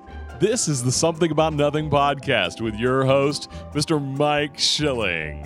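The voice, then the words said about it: Radio announcer voice. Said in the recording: “do you have your radio voice? ... I have my radio voice”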